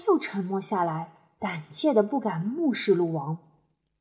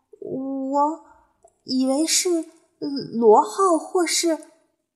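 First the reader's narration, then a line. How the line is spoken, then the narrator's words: Stammering. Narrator (Chinese): 斑比结结巴巴地说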